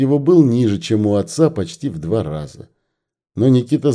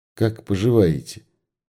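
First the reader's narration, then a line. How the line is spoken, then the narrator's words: Quiet question. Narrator (Russian): тихо спросила Люба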